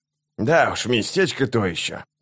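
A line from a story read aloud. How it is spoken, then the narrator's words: Through gritted teeth. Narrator (Russian): процедил старший солдат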